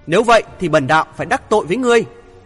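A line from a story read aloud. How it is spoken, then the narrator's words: Frowning loud shout. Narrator (Vietnamese): cau mày quát lớn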